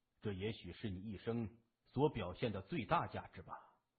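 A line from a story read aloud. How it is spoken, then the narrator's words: Sighing. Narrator (Chinese): 他叹了一口气说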